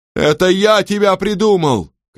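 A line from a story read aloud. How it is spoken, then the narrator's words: Shouting. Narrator (Russian): кричал он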